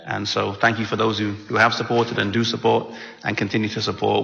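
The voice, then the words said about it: Mixed English-American accent. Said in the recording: “I love his accent as well, too. You know, it's kind of similar to Southern Illinois, just a little bit ... they say I have an English accent ... they say I have an American accent”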